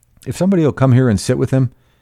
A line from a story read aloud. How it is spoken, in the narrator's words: he snapped authoritatively